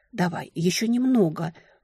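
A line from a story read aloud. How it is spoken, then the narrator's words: Urgent whisper. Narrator (Russian): шепотом поторопила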